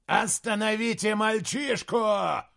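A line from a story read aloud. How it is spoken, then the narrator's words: Shout. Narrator (Russian): крикнул Прайрат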